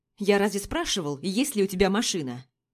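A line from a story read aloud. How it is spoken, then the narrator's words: Irritated question. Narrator (Russian): Раздраженно спрашивает он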